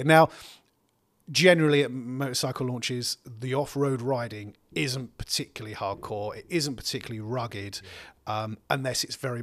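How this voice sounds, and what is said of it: Essex English accent. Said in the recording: “my Essex accent coming out there”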